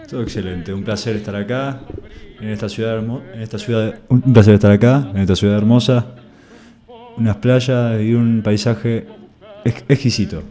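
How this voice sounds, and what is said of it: Radio announcer's voice. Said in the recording (Spanish): “este sí que tiene una voz de locutor.”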